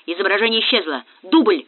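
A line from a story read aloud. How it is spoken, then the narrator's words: Shouted. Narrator (Russian): крикнул Молчанов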